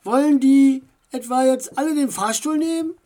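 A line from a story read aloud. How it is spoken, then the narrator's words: Shout from crowd. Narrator (German): rief jemand aus der zweiten Reihe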